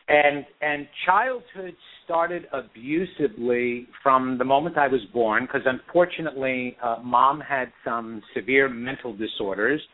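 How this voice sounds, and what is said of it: Long Island New York accent. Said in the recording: “I grew up in New York, Long Island, New York, and you would detect that really quick with my accent.”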